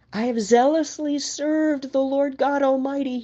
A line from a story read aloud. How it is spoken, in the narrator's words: he cried